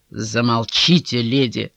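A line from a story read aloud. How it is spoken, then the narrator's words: Investigator's creaky voice. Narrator (Russian): проскрипел следователь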